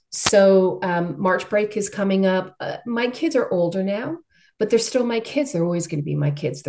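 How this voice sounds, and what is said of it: Australian accent. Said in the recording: “despite the accent, originally from Australia”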